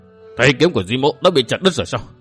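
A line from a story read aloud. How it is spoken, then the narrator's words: Stammering. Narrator (Vietnamese): Y lắp bắp nói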